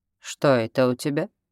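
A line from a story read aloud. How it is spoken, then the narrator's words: Plain. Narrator (Russian): спросил он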